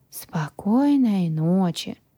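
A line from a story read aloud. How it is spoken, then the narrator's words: Drawl. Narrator (Russian): Протянул Грю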